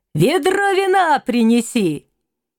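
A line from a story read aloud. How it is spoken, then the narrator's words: Old man shouting. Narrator (Russian): Старик крикнул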